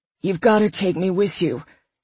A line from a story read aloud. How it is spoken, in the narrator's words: he said, his voice low and gravelly, moist with emotion